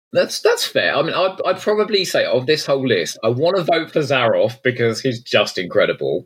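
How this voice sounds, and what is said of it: Usual voice. Nothing is said of it.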